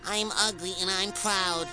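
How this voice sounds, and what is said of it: Louder, shouted declaration. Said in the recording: “Say it louder.”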